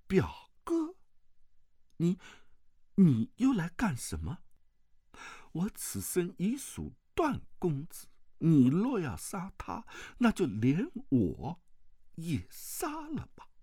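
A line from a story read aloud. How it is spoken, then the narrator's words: Trembling voice. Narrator (Chinese): 王语嫣颤声道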